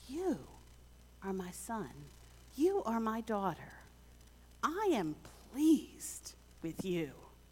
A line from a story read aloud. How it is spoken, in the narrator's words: God smiles and whispers